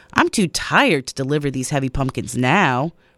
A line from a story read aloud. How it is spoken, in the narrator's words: Rebecca grumbled